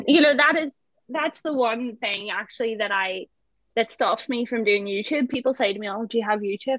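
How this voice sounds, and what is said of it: Belfast Northern Irish accent. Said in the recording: “my accent ... the Belfast accent on TV”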